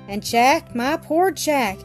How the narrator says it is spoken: sighed infected with his fears

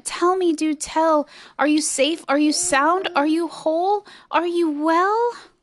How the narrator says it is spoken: cried the elephant

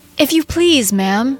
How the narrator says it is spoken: said, as sweetly as she could

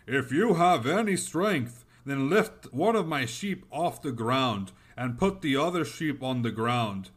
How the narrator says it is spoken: The Dev shouted again

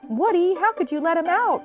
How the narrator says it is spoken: cried Jessie

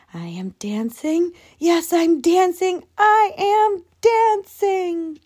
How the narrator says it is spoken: Gerald cried

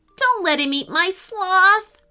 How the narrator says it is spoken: pleaded Emily

